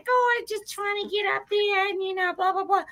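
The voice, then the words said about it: Thick New York accent. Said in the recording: “she had this really thick New York accent.”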